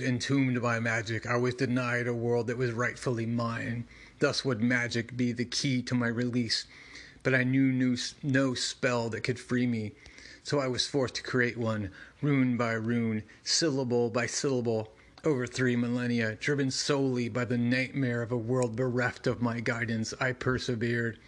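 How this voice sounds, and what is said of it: Monster character voice. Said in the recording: “doing monster voice, takes a lot out of my throat”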